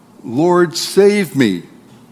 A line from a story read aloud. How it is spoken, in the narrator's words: he cried out